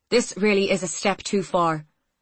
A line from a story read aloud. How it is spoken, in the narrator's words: she said sharply